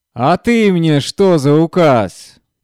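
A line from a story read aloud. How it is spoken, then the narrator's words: Drunken shouting. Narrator (Russian): кричал почти не стоявший на ногах Гордей Евстратыч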